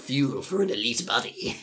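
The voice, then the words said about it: Salesman-style supervillain voice. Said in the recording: “salesman voice? ... that voice ... I, like turned into like a supervillain.”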